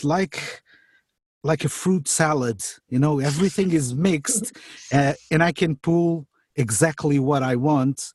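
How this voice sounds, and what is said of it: Speaker's own recognizable accent. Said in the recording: “People will recognize my voice if they don't see me because they already know my accent”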